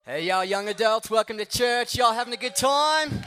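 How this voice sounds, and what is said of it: Put-on Australian accent. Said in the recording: “I was just kidding. I'm not actually Australian. ... I wish I could do the whole thing in an Australian accent, but I'm not that cool.”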